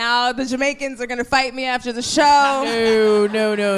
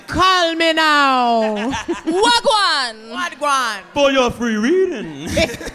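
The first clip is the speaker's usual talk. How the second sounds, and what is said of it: Bad put-on Jamaican accent. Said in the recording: “the worst Jamaican accent that I can do. Okay. Yeah, it's pretty bad ... You sound worse than the crab from Little Mermaid.”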